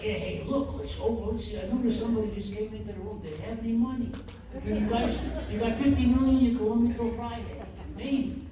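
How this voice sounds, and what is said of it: Sleazy cartoon criminal character voice. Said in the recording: “Can you still do the voice? ... The Beagle Boys ... with criminal types, you find the strong thread and you just be kind of sleazy”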